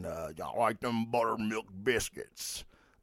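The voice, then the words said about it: Poor imitation of another person's voice. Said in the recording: “That was a horrible Billy Bob Thornton impersonation.”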